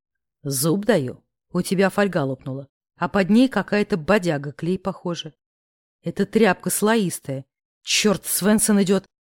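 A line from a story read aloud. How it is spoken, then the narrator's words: Growling. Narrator (Russian): Прорычал Корф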